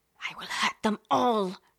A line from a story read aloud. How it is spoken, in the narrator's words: she hisses